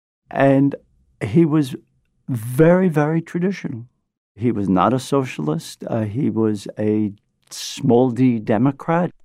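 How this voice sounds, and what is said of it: Brooklyn accent. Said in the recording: “This is my Brooklyn accent. ... I love your accent.”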